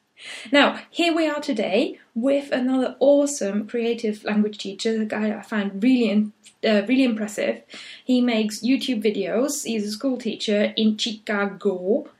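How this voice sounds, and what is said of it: Funny put-on accent. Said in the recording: “I don't know why I say all these things in a funny accent”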